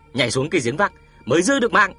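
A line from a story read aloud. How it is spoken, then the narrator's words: Old man's sudden roar. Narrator (Vietnamese): lão Dương Bì chợt gầm lên một tiếng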